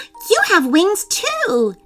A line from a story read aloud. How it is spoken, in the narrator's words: cried